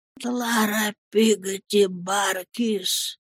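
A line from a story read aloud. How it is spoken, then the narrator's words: Weak cry, dying man. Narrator (Russian): слабым голосом крикнул умирающий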